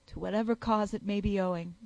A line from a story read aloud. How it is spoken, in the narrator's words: cried the youth